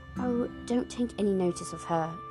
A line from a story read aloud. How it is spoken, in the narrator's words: said Edmund